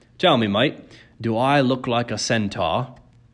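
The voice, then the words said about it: Strange British-sounding foreign accent. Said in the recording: “He had a strange accent, British maybe, but also as if he had learned English as a second language.”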